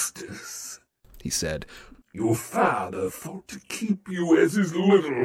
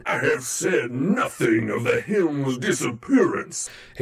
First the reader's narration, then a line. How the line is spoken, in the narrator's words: Hades snarled